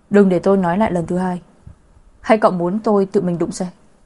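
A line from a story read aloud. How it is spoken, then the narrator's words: Cold, fiercely angry. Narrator (Vietnamese): lạnh lùng nói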